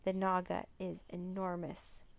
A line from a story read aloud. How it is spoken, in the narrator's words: he stammered